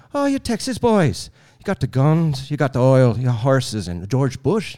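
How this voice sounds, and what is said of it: Convincing put-on Irish accent. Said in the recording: “Your Irish impression is very impressive.”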